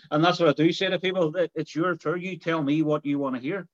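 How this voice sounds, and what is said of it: Derry Irish accent, deliberately slowed. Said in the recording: “Even sometimes with my accent ... this is my slow version that we're speaking with”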